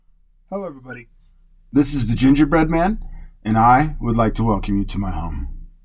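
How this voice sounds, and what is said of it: Rough, hoarse voice. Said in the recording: “Pardon my voice. I'm getting over a pretty long cold for the last 2 weeks, so I might be a little rough on some enunciation or some pronunciation.”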